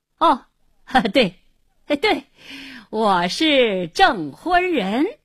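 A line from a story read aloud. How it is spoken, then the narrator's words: Forced hearty laughter. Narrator (Chinese): 胡经理故意哈哈大笑，连声说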